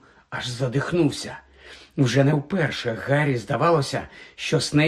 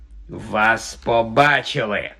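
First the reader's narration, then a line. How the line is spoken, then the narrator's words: Hissed. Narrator (Ukrainian): просичав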